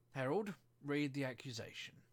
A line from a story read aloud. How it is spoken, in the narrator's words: said the king